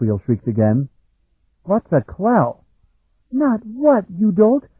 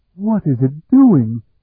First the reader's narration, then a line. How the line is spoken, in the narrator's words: Betwana cried